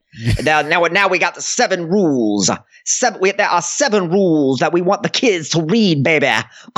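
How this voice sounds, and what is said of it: Imitates another person's voice. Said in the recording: “I got the worst Dusty Rhodes impression”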